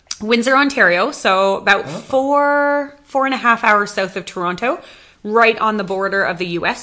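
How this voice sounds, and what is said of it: Canadian voice with slight American twang. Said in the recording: “I kind of have a little bit of an American twang”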